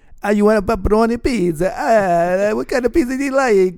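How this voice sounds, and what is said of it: Put-on Italian accent. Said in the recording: “my Italian accent I do sometimes”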